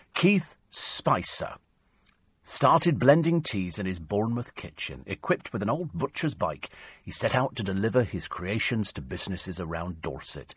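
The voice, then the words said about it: Put-on accent while reading. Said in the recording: “I don't know why I'm doing that accent.”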